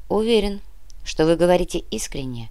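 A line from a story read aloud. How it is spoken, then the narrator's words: Calm. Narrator (Russian): спокойно ответил Кортес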